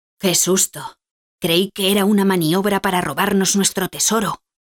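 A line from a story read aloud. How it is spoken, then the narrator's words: Said with a sigh. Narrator (Spanish): dice suspirando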